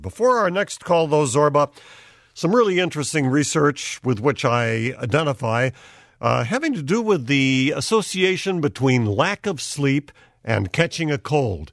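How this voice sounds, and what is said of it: Slightly different, stuffy head-cold voice. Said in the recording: “my voice is a little little different this time around. I'm on the tail end of a kind of a bad head cold”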